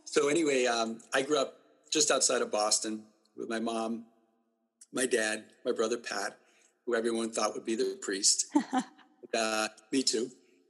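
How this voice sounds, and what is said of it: Quincy Boston accent. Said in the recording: “you're probably going to hear my Quincy accent ... I'm hearing it now ... it can get stronger”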